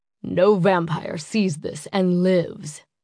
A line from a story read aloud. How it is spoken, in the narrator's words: Gabriel said, his voice gravelly